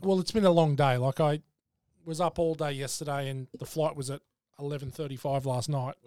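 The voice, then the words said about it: Tired voice. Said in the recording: “Your voice is a little... I'm tired.”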